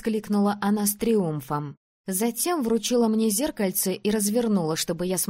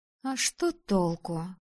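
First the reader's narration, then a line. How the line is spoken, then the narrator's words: Grumbling. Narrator (Russian): проворчала она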